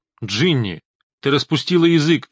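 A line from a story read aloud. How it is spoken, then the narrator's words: Barking. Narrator (Russian): он рявкнул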